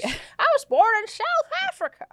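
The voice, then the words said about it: Put-on southern accent. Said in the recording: “We're doing like a southern accent.”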